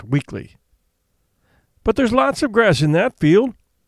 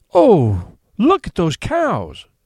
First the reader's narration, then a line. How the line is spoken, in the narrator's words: exclaimed the aunt